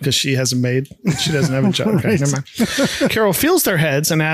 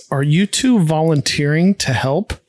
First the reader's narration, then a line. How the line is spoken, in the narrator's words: Carol slowly asks